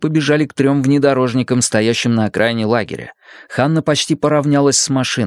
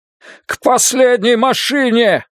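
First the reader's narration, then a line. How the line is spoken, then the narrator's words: Shouted. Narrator (Russian): выкрикнул Йонас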